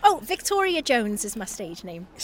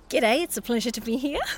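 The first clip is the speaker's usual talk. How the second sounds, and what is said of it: Put-on Australian accent. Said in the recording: “Go back into Australian again.”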